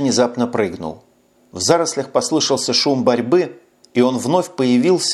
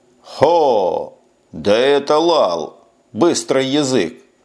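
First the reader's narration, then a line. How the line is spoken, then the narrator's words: Loud shouting. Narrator (Russian): так громко кричал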